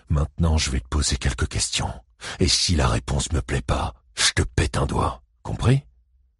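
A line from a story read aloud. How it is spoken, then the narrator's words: Murmured. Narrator (French): murmura-t-il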